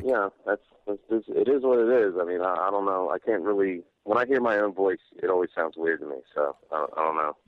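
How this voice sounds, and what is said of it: Smooth radio voice, not scratchy. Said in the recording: “I expected your voice to be a little scratchier than it is... you got a pretty good radio voice.”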